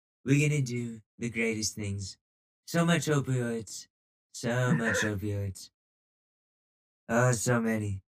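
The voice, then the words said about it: Donald Trump impression. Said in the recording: “don't give me your Trumpy answer ... Well, you do a better voice than that.”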